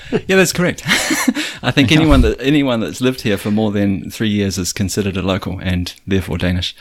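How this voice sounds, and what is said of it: New Zealand accent. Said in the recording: “I can tell ... from your accent ... That would explain the accent”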